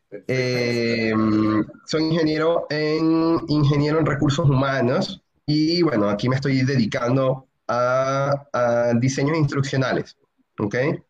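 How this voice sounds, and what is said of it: Venezuelan Spanish accent. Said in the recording (Spanish): “venezolano por acento”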